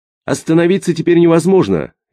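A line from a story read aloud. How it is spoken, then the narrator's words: Cheerful. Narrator (Russian): весело говорил Крылов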